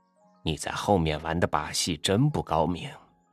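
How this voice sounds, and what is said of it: Lowered, hushed voice. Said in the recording (Chinese): “压低声音说”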